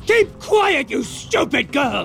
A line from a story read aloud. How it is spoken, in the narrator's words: Snape shouted, looking suddenly quite deranged